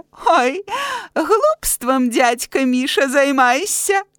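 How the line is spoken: Giggling. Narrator (Belarusian): хіхікае

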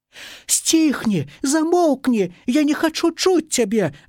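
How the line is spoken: Shouting. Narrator (Belarusian): закрычаў дымок

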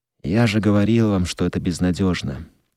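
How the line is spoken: Dejected voice. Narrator (Russian): упавшим голосом проговорил Скотт

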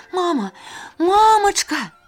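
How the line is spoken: Wailing. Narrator (Belarusian): Аксанка і яшчэ з парога залямантавала

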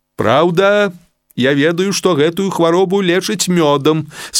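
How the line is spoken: Plain, doctor. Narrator (Russian): сказал доктор

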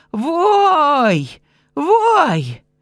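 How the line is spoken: Old woman's wail, quickly silenced. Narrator (Belarusian): залямантавала бабка, але тут же стихла

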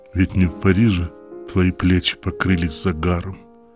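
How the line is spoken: Calm. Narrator (Russian): спокойно сказал Равик

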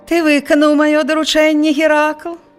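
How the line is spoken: Sugary-voiced question. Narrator (Belarusian): саладжавым голасам запытаўся цар

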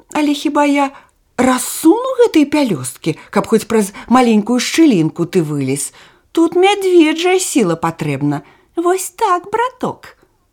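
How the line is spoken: Sighing. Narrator (Russian): вздохнула оса

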